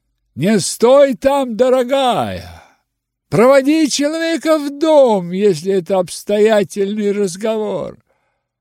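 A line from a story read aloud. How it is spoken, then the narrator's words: Shouting. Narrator (Russian): он тут же крикнул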